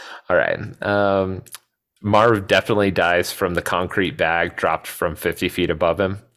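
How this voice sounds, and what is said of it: Usual voice. Nothing is said of it.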